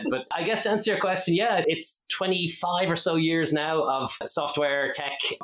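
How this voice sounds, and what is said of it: Irish accent. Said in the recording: “if folks, it doesn't give it away with my accent, I am Irish”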